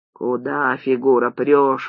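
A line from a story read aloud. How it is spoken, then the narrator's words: Grumbling. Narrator (Russian): ворчал он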